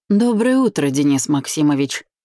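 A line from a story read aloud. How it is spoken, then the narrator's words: Unfriendly grumble. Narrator (Russian): не особо приветливо пробурчал Макс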